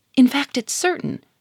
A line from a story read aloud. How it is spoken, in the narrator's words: cried Germaine